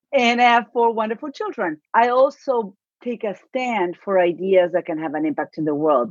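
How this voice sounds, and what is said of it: Argentine accent. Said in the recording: “My accent, I'm going to say that up front, is from Argentina.”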